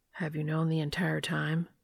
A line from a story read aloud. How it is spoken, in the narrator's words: A pained expression crosses Dean's face, and his voice is quiet when he asks